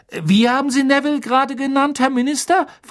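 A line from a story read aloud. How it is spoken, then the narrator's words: Excited question. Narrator (German): fragte er aufgeregt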